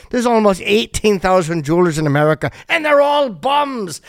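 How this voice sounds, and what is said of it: Bad put-on accent. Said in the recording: “I do a bad accent ... Why am I bailing out of the accent?”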